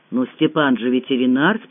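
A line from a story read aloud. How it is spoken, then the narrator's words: Calm explanation. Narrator (Russian): спокойно пояснила Галь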